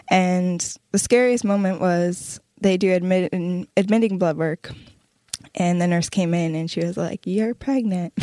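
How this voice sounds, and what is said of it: Shaking, emotional voice. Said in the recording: “my voice is shaking”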